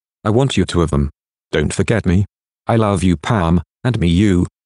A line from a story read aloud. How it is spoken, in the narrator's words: she said